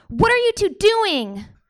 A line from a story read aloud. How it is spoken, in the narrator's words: She yelled